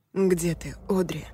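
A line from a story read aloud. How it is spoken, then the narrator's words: Tearful, bewildered voice. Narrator (Russian): Его голос звучал сквозь слезы и непонимание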